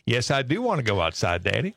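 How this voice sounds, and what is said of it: Dog voice with southern accent. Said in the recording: “she had a bit of a southern accent ... she answers in a southern accent”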